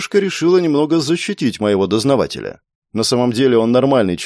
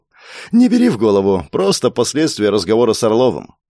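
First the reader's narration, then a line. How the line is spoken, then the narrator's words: Cheerful, smiling. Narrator (Russian): я улыбнулся и бодрым голосом ответил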